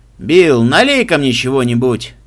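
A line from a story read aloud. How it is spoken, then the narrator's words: Loud older man. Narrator (Russian): громко попросил немолодой мужчина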